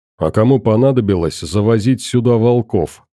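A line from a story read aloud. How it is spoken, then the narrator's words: Plain. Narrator (Russian): спросил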